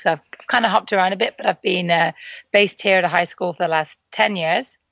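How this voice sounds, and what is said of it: British accent. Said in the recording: “From the accent, you might be able to tell that that's not where I'm from. I'm actually British.”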